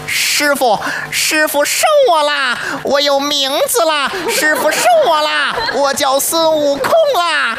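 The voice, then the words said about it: Wild, monkey-like Monkey King voice. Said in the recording (Chinese): “非常有野性...更多去模仿猴子本身的叫声...模仿李世宏老师...咱就看这野性”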